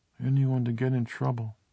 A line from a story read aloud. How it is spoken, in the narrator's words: Carol finished in a tiny voice, almost the whisper of a mouse in a cartoon